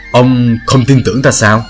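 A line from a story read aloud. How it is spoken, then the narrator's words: Deep booming man's voice. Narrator (Vietnamese): Đại hán to lớn ấy ồm ồm nói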